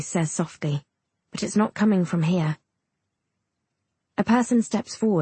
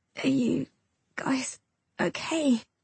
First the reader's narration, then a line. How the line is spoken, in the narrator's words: I croak